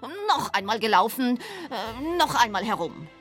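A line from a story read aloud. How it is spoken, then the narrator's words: Furious shouting. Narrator (German): Der Hase war ganz außer sich vor Ärger und schrie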